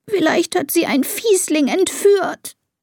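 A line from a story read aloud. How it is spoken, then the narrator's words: Sobbing. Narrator (German): schluchzt Elisa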